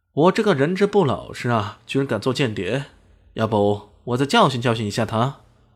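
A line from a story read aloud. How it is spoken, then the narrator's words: Loud. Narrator (Chinese): 李迅也大声说道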